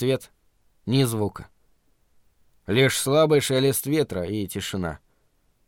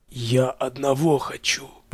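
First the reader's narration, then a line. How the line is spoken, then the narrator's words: Faint rustling whisper. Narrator (Russian): произнес вдруг Рент еле слышным точно шелест ветра шепотом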